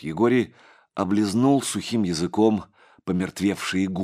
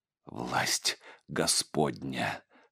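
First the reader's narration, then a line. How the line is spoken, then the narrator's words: Sudden whisper. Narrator (Russian): прошептал, внезапно вспомнив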